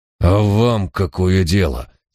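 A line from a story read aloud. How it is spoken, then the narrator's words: Fierce growl. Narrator (Russian): свирепо прорычал Филипп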